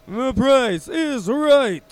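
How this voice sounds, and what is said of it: Poor game show host impression. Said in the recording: “Not a good Bob Barker impression. I don't do impressions very well”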